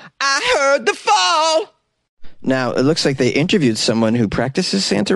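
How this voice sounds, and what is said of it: Usual voice. Nothing is said of it.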